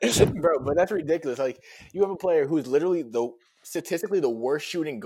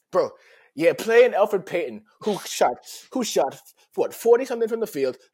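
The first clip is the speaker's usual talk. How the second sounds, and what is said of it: Put-on Jamaican Rasta-style accent. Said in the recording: “Relax on the accent ... he turns into a Rasta man.”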